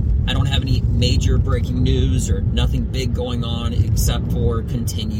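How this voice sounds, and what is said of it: Usual voice. Nothing is said of it.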